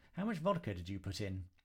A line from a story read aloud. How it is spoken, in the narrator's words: Jemima sighed